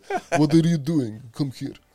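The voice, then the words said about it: Exaggerated bad Russian accent. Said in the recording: “they need bad Russian ... it's very, very good accent ... that's like a Borat thing”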